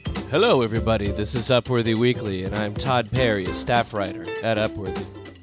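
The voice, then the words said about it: Husky, under-the-weather voice. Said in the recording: “such a sexy voice ... because I've been a little under the weather”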